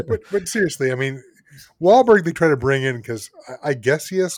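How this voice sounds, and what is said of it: Usual voice. Nothing is said of it.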